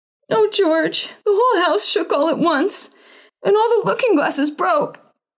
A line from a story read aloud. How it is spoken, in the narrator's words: wailed his mother, and Adriana and Cordelia joined